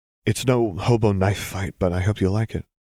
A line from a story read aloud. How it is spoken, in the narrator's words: she said with a small laugh